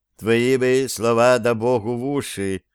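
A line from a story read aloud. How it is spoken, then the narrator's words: Sighing king. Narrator (Russian): вздохнул царь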